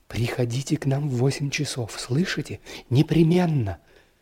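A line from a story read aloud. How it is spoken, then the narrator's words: Rapid whisper. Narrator (Russian): она скороговоркой шепнула мне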